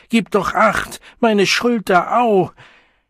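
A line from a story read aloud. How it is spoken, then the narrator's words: Screaming. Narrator (German): schrie Philine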